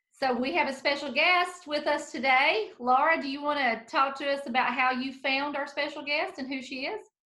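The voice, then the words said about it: Southern American accent. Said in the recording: “they happen to have Southern accents too. Bless their hearts.”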